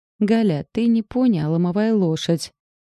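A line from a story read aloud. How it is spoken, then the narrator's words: Sighing groan. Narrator (Russian): Вздохнув, простонала Катька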